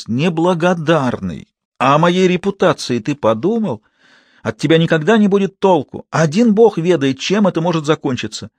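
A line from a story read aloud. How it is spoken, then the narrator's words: Shrill woman's voice. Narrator (Russian): услышал ее визгливый голос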